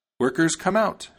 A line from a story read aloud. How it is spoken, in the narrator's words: she cried